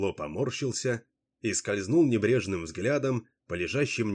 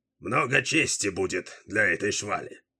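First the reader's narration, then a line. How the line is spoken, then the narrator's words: Hoarse. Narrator (Russian): хрипло сказал он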